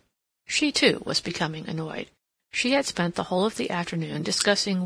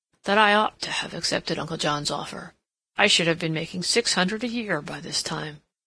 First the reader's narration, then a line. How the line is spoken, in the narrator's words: observed gloomily